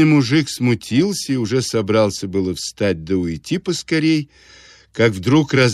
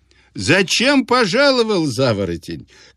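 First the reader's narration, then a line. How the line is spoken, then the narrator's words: Shouting through laughter. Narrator (Russian): кричал он сквозь смех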